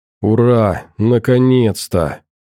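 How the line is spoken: Breathless relief. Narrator (Russian): буквально выдохнула Карина

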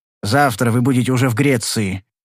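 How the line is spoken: Rude interruption. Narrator (Russian): грубо прервал я его

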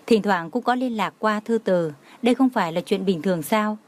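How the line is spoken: Smiling. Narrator (Vietnamese): Đường Khả Hinh mỉm cười nói

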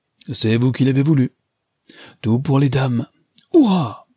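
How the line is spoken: Exclaiming. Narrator (French): s'écria-t-il

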